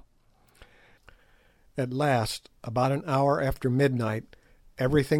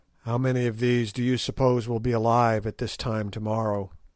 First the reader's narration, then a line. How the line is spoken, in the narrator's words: asked Sir Henry